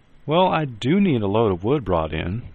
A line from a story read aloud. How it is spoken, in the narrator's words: Mom said cheerfully